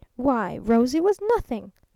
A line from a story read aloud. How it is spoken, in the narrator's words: snapped the traveling salesman